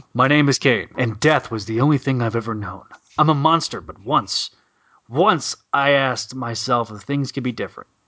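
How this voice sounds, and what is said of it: Imitates a TV character's voice. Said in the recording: “does the best Oliver Queen impression”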